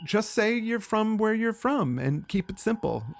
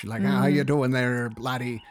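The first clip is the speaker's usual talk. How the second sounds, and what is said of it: Put-on Irish accent. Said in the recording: “I start trying to talk Irish”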